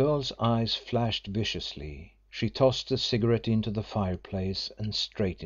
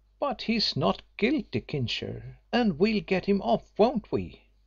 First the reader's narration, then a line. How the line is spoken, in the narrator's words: exclaimed energetically